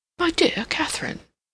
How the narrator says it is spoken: William exclaimed

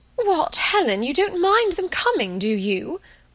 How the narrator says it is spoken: Munt was so disconcerted that she exclaimed

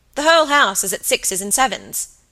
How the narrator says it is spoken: he said crossly

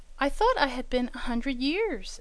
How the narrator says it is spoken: exclaimed Diamond

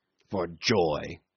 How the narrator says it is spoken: snorted Cornelius

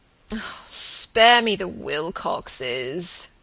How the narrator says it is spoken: he moaned

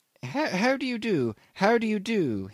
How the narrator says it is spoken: piped amiably

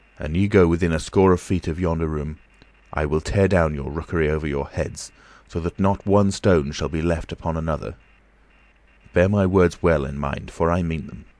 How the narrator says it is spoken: he spoke in a deep, quivering voice, and said he

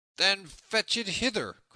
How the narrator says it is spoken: cried Little John, who waxed angry by this time

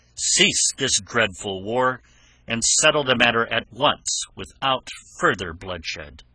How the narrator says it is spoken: cried

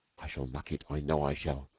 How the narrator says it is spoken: whispered Stalky uneasily

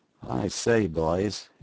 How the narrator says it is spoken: ejaculated the ex-convict with an uneasy laugh, half comic, half bewildered

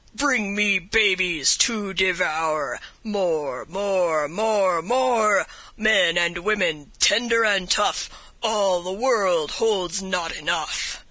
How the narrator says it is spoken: he sang in a terrific voice

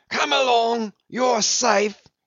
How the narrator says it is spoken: yelled Brown

